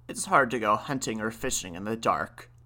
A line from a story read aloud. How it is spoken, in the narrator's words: said Raven